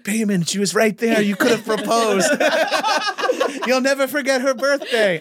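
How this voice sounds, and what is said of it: Vague put-on foreign accent, slowed speech. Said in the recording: “accidentally doing an accent for your mom ... I'm just doing foreign ... just stutter a little, you know, just say words slower”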